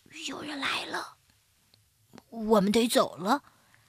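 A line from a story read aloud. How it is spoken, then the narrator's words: Hushed low voice. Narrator (Chinese): 卡斯波特压低了声音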